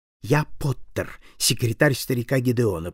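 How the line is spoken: Whisper. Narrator (Russian): прошептал

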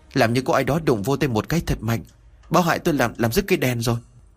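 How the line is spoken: Trembling voice. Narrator (Vietnamese): Ba Dư trả lời với một giọng run rẩy

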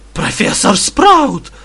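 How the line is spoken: Very joyful call. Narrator (Russian): выкликнул один из пуффендуйцев радостным, прирадостным голосом

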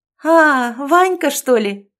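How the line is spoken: Joyful girl. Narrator (Russian): радостно вспыхнула девушка

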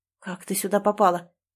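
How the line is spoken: Hoarse, emotional voice. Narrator (Russian): В хриплом голосе столько эмоций

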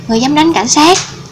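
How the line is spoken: Angry. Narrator (Vietnamese): Tên cảnh sát mặt đen giận dữ

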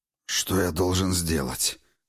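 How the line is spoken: Hoarse. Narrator (Russian): хрипло проговорил он

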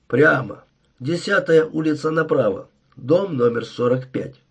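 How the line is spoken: Mumbling mutter. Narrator (Russian): пробурчал он

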